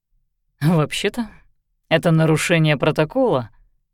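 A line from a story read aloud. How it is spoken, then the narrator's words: Snorting. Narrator (Russian): хмыкнул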